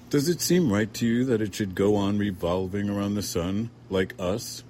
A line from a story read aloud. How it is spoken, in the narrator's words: Sybil said